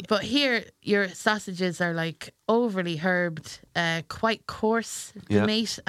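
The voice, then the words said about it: Irish accent. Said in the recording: “I'm from Ireland, well, I would consider myself to be from Ireland because my accent”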